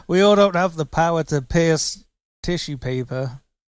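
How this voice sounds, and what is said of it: Put-on British accent. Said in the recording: “In my British accent.”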